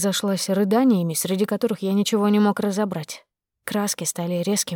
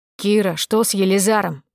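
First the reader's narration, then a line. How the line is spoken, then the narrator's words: Bark into phone. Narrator (Russian): рявкнул в трубку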